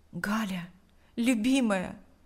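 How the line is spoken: Tender whisper. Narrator (Russian): прошептал Павел, склонившись к ней

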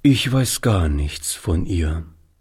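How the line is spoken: Sad answer. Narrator (German): antwortete Oliver, indem er traurig den Kopf schüttelte

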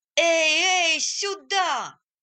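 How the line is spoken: Shouting. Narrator (Russian): кричали

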